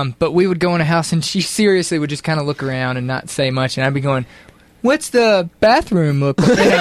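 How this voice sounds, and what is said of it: Usual voice. Nothing is said of it.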